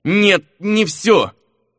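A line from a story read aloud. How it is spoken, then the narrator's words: Wounded, hoarse wheeze. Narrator (Russian): просипел бледный как мел Эрландер, зажимая рану обеими руками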